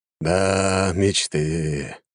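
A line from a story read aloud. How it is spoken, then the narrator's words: Sighing emperor. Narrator (Russian): вздохнул император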